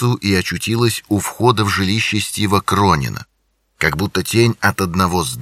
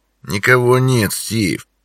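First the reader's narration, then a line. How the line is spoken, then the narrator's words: Low mutter. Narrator (Russian): пробурчал он вполголоса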